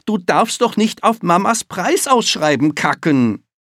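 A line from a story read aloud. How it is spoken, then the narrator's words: Shouting. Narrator (German): schreit Jan Arne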